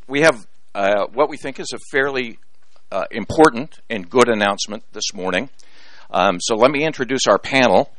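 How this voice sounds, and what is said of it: Rough, strained voice. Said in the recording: “my voice is a little rocky this morning.”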